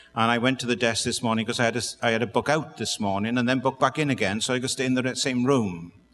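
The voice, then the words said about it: Noticeable non-American accent. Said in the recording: “I love the accent ... I was just listening to the accent.”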